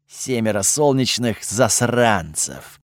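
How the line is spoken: Resigned sigh. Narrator (Russian): обреченно вздохнул Готфрид

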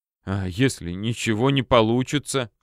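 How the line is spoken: Sobbing. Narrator (Russian): всхлипнул Кохнер

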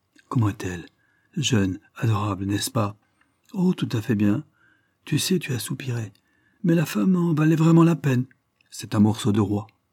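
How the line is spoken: Feverish voice. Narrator (French): Il demanda d'une voix fiévreuse

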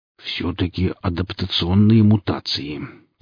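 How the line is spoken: Mutter. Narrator (Russian): пробормотал Велес

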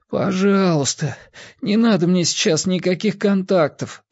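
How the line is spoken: Pleading. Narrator (Russian): взмолился он

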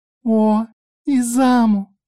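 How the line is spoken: Drawn-out. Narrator (Russian): Протянула Мика

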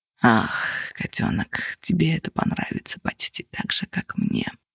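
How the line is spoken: Purring. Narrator (Russian): промурлыкал он

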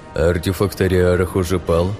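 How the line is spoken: Tired question. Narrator (Russian): устало спросил он

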